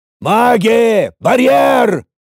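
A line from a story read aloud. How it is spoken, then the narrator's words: Sudden roar. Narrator (Russian): моментально взревел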